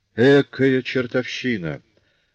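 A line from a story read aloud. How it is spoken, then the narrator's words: Through gritted teeth. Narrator (Russian): процедил сквозь зубы Жавер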